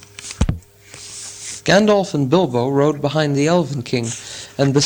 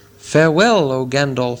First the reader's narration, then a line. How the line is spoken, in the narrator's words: said the king